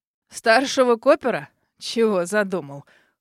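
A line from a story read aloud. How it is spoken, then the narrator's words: Smirking snort. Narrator (Russian): хмыкнул мистер Бакстер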